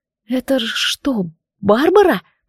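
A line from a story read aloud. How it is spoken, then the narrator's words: Whispered. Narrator (Russian): прошептала я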